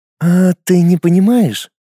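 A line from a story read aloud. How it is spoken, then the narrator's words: Sly smirking reply. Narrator (Russian): хитро усмехнулась в ответ Луиза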